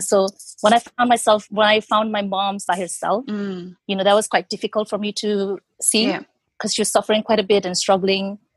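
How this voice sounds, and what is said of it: Choked-up, emotional voice. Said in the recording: “Sorry, I'm getting choked up a little bit.”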